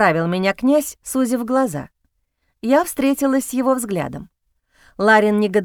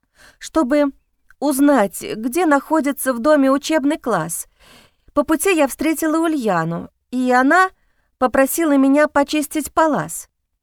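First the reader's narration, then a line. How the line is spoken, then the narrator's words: Stammering with fear. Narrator (Russian): начала я рассказывать, запинаясь от страха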